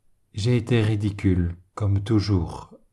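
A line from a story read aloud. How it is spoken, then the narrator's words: Plain reply, priest. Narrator (French): répondit l'abbé Donnisan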